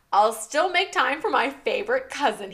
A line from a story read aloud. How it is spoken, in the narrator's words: he chuckled